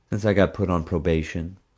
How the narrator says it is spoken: Summer answered, now keeping her voice low

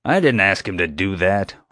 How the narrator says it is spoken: Honecker growled

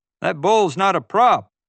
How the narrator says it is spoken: the cowboy yelled

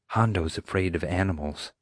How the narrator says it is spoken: Summer whispered

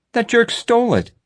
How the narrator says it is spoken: I exclaimed

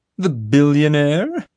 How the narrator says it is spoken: Molly laughed derisively

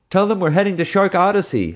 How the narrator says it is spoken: I yelled back

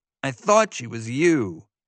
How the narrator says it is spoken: Evan said bitterly

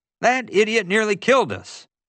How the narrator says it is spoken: JJ exclaimed, cutting me off

